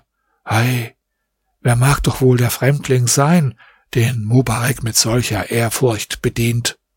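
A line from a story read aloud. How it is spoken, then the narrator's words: Amazed quiet murmuring. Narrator (German): Die Großen von Kahira waren darüber sehr verwundert und sprachen leise untereinander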